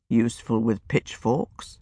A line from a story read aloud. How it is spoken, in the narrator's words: he murmured